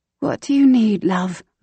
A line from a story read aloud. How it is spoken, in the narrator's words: Mama asked in her usual gentle voice